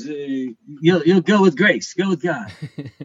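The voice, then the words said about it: Imitates another person's voice. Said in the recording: “Very good Cerrone impression.”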